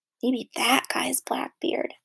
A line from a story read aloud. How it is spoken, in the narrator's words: Stink whispered